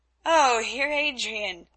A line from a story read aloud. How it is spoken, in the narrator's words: answered, laughing